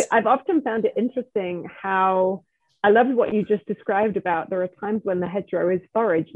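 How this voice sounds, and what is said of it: Non-Californian accent. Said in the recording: “you may notice from my accent that I'm not a California person originally”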